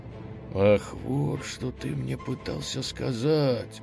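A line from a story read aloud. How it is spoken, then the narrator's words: Whisper. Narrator (Russian): шепотом проговорил ослик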